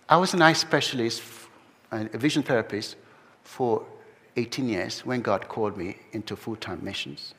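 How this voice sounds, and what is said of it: Mixed, non-typical English accent. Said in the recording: “my accent is pretty messed up. It's not typical English accent.”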